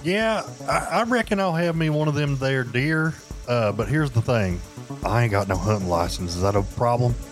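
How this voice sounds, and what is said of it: Put-on country accent. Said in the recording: “you don't have to, like, put on to have a country accent. You're pretty much there.”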